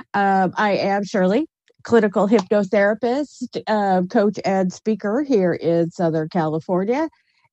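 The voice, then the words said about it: Slightly congested voice from a cold. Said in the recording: “As you can tell, I have a little bit of a cold today.”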